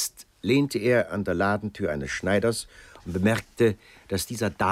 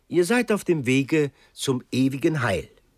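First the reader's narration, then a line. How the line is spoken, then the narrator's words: Called out. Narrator (German): rief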